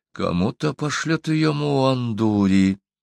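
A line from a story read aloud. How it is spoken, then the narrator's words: Whisper. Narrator (Russian): прошептал Пыжу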